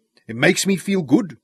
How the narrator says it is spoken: Nanny grunted

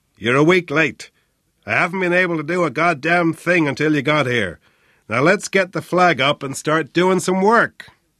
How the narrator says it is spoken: O'Flynn roared

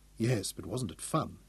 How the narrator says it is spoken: Daniel murmured

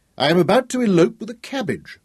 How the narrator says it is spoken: she laughed merrily

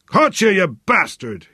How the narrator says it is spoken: roared

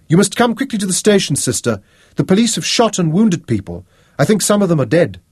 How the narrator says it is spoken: Tara shouted up at her

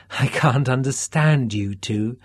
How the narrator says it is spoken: Candy laughed breathlessly

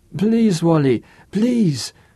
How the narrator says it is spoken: whimpered Andre

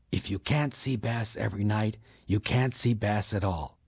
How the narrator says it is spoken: the waiter quietly whispered back

